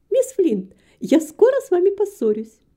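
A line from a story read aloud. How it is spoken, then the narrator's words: Cheerful exclamation. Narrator (Russian): Нетта Грисворт со своей обычной веселостью воскликнула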